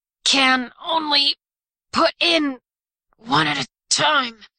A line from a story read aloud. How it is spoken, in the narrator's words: the man cursed beneath his breath, then gasped